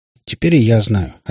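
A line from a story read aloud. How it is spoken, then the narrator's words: Plain. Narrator (Russian): ответила сестренка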